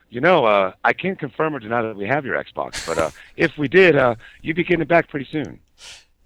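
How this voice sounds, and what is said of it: Imitates another person's voice. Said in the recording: “my best Chris Valdino impression.”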